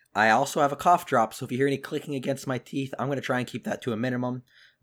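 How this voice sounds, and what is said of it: Sick voice, deeper, cracking. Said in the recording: “I'm pretty sick. So I want to apologize for any voice cracks if I sound like a 13-year-old boy ... my voice is a little deeper than normal”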